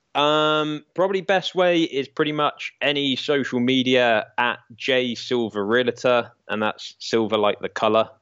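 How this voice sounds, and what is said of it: English accent. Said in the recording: “It's the English charm, maybe. ... I guess it's the accent again, they spell silver like silva”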